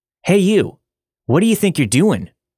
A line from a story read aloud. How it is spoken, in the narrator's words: one of the officers yell